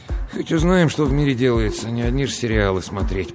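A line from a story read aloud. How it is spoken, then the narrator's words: Grumbling. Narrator (Russian): пробурчал он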